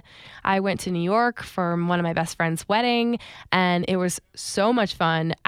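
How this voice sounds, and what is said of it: Sick-sounding voice. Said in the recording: “As you can tell by my voice right now, I'm kind of sick”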